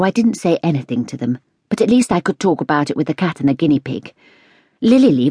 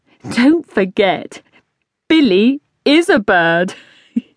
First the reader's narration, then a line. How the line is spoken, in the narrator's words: Dad, laughing